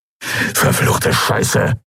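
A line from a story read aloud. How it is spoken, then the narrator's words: Hissing. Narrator (German): zischte Urdrak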